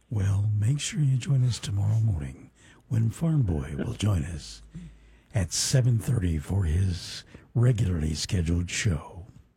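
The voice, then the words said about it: Golf announcer impression. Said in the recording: “my golf impersonation ... That's pretty good. You need to send that to CBS.”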